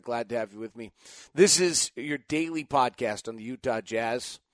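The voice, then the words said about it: Slightly scratchy voice. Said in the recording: “my voice is a little scratchy this morning”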